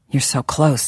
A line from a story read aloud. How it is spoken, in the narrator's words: he murmured